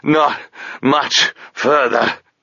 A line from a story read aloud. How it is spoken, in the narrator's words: Touchstone gasped